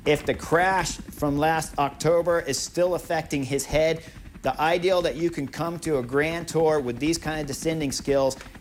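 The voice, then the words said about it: American accent. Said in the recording (Dutch): “heel goed Amerikaans accent.”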